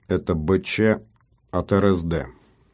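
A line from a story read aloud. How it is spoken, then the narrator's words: Unnatural metallic voice. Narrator (Russian): неестественным каким-то металлическим голосом сказал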